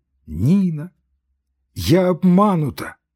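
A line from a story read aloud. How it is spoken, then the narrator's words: Loud sobbing. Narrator (Russian): громко зарыдала она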